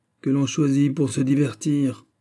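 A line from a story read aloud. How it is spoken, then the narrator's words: Grumbled. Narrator (French): grommela le prince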